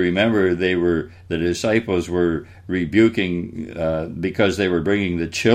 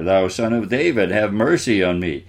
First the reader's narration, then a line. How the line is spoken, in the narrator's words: he cried the more